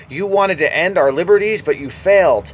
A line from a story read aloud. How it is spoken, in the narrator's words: shouted